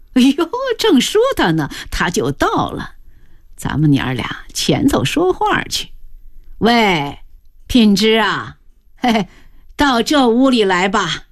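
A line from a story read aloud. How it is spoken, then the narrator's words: Laughing. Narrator (Chinese): 张姥姥笑道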